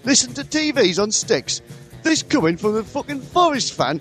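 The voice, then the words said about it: Poor put-on Geordie accent. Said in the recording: “worst Geordie impression I've ever done”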